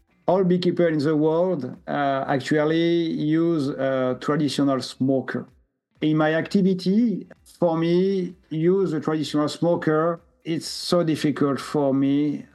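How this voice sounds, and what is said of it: Strong French accent. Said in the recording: “He has a strong French accent. You will be able to understand him if you listen closely.”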